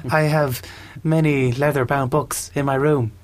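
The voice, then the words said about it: Imitates another person's voice. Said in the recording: “Will Ferrell's accent that you just keep doing over and over again so well ... That's perfect ... it's almost exact.”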